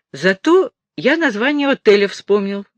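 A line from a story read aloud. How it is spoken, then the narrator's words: Joyful. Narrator (Russian): радостно сказал Алекс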